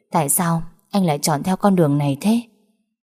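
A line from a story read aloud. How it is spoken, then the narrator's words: Soft laugh. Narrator (Vietnamese): Hà Vân khẽ cười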